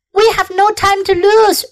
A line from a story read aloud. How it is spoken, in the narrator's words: shouted Mr